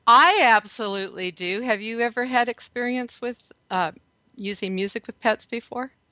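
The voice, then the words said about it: Texas accent. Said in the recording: “Authentic yeehaw. I just guessed the accent”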